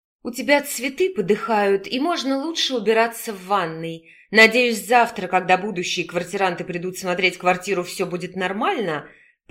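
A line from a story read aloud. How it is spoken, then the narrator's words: Through gritted teeth. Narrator (Russian): Процедила сквозь зубы свекровь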